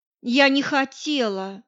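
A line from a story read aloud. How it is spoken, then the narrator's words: Sighing, near tears. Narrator (Russian): вздохнула Лика, явно готовая немедленно расплакаться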